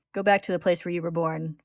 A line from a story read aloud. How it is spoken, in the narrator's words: Father says calmly